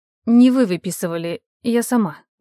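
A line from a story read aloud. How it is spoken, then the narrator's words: Grumbled reply. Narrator (Russian): буркнула в ответ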